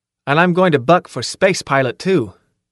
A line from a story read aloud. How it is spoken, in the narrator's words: I added firmly